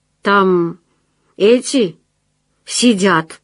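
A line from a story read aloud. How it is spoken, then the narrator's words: Uncertain. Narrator (Russian): сказал один из них, неуверенно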